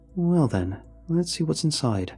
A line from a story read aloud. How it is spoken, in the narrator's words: I replied, keeping my voice neutral